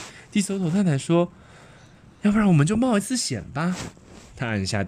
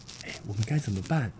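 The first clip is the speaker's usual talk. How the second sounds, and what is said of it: Quiet, hushed voice. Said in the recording (Chinese): “小声的”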